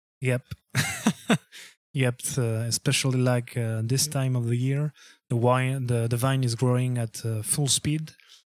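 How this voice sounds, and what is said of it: Non-native English accent. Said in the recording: “my accent is fucked up and I'm not able to pronounce English correctly”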